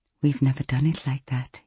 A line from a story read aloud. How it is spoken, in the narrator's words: he gasped